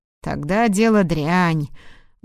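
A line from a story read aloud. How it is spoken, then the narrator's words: Grumble. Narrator (Russian): буркнул он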